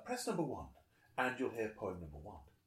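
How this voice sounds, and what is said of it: Put-on accent imitating a woman. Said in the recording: “Excuse me for the accent”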